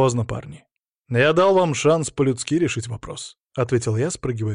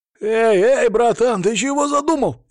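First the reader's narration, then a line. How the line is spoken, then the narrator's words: Hysterical yelling. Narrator (Russian): истерически заорал он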